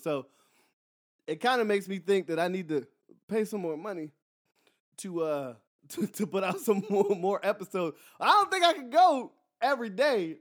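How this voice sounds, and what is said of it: Tired, strained voice. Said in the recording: “My voice is tired from yelling”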